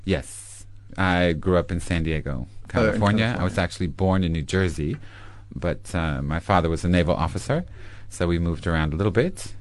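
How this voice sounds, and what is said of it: American accent. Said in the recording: “your accent means you obviously come from America”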